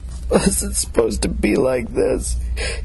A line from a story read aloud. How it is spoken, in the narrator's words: spat at her between sobs